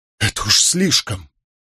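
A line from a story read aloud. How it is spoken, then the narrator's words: Exasperated exclamation. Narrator (Russian): Николас не выдержал и воскликнул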